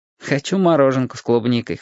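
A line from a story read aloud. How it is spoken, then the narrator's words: Snorted. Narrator (Russian): хмыкнул я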